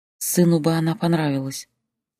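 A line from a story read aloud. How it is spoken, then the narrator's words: Quiet. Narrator (Russian): тихо сказала она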